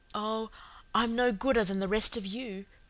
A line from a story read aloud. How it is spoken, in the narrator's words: breathed Cecily